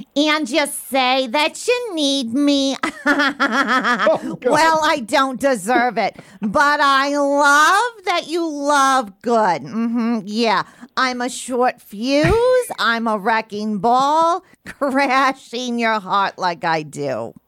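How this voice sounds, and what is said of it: Overdramatic sitcom character impression. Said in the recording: “overdramatically delivering some country lyrics ... doing it in the spirit of Janice from Friends ... My closest impression”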